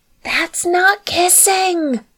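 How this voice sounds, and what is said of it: Loud stage whisper. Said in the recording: “a voice whispered loudly... still doing her impression of a subtle whisper”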